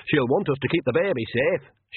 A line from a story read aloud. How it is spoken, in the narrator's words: she added loudly